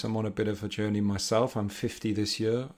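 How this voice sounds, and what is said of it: Northeast English accent. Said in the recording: “accent, um, I'm British. I'm from the northeast of England”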